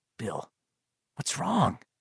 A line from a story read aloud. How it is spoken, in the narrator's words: Richie whispered